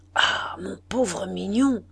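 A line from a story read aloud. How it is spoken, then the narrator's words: Murmured from need to speak. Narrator (French): murmura-t-il dans le besoin qu'il avait de parler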